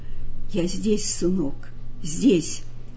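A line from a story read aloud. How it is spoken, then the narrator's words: Hurried angry mutter. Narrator (Russian): пробормотал он торопливо и со злобой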